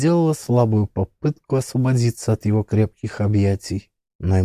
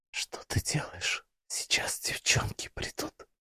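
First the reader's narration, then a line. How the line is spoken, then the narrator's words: Confused, embarrassed whisper. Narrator (Russian): растерянно и смущенно прошептала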